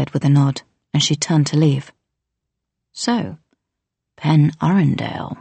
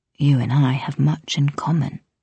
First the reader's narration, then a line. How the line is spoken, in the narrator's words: he said almost gently